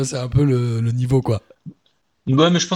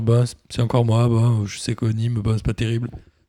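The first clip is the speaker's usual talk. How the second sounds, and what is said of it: Gloomy, depressed-sounding voice. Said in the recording (French): “Il a l'air un peu dépressif”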